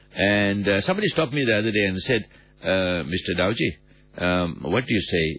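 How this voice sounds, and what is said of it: Sick, flu-affected voice. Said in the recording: “As you can hear from my voice, I got a bit of a flu, just the usual run-of-the-mill flu.”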